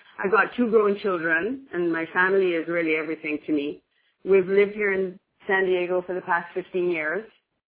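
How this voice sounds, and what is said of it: Jamaican accent with slight Irish tinge. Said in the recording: “originally from Jamaica, that's where the accent comes from ... That's where the little weird accent comes from”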